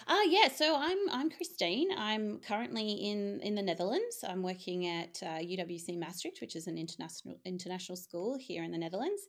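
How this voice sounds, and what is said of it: Australian accent. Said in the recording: “you can probably tell from my accent, I'm Australian.”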